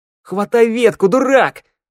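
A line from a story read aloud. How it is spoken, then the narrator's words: Furious scream. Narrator (Russian): завопила шныряла, яростно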